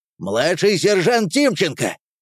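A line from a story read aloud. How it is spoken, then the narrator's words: Shouting. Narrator (Russian): крикнул он в сторону своих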